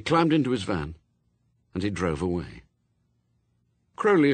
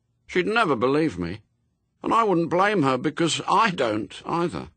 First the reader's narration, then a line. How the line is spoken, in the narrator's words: he told them, a little sadly